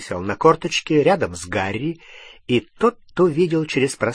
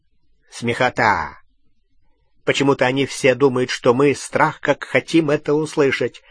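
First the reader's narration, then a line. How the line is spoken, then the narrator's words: Snort in darkness. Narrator (Russian): хмыкнул в темноте Струпьер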